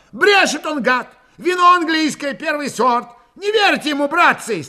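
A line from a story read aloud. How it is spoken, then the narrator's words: Yelling over crowd noise. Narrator (Russian): стараясь перекричать гул голосов, заорал Прохор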